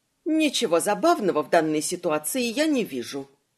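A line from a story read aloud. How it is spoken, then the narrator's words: Unusually stern mother. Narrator (Russian): матушка строго так, как никогда прежде, произнесла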